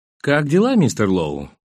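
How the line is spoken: Deliberately casual, wary. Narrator (Russian): нарочито небрежным тоном спросил я, опасаясь вызвать недовольство у этого романтика

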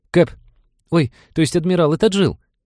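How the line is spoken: Squeaky loudspeaker. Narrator (Russian): пискнул динамик над входом

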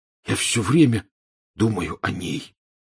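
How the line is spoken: Hoarse. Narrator (Russian): хрипло сообщил Рон

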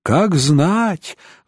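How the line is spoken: Sigh. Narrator (Russian): вздохнул Голиард

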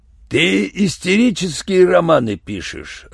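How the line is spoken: Growled. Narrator (Russian): рычал Юренев

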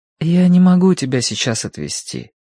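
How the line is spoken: Gentle reply. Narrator (Russian): ответил Киврин ласково

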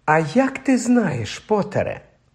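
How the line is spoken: Gentle objection. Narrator (Ukrainian): лагідно заперечила МакГонагал

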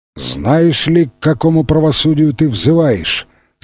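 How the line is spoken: Guttural voice. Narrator (Russian): спросил его предводитель гортанным голосом

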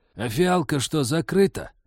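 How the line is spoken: Mocking creaky voice. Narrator (Russian): глумливо проскрипела в углу

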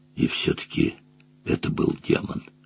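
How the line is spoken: Whispered. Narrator (Russian): прошептал Мадж

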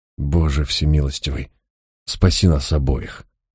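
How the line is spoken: Muttered. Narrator (Russian): пробормотал я

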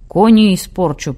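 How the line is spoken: Grumble. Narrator (Russian): проворчал араб

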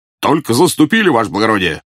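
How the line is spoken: Barked. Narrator (Russian): гаркнул старший по караулу

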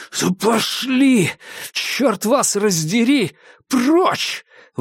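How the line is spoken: Breathless exhale. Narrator (Russian): выдохнул Дейл

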